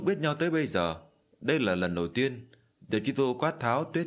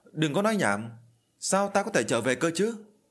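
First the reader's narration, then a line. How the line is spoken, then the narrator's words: Angry. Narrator (Vietnamese): Diệp Truy Thu tức giận nói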